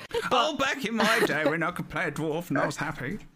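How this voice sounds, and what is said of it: Old man voice. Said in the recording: “old man voice”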